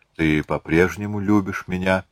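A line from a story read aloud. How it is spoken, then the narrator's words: Tender, apologetic like child. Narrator (Russian): неожиданно ласково, словно ребенок, который просит прощения за содеянную глупость, сказал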